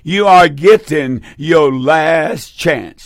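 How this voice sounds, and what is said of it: Slow, deliberate delivery. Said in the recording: “say this slowly”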